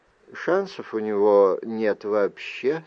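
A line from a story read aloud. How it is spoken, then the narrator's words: Plain. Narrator (Russian): сказала Вайл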